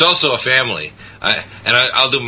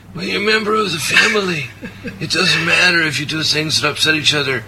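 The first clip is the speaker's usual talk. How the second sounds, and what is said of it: Sloppy put-on Italian accent. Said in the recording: “my kind of sloppy Italian accent”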